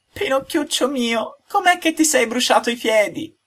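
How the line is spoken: Tearful sobbing speech. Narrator (Italian): coi lucciconi che gli cascavano giù per le gote, gli disse singhiozzando

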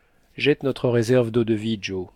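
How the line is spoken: Exclaiming. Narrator (French): s'écria le docteur

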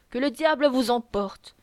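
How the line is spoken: Grumbling. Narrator (French): grommela maître André Musnier

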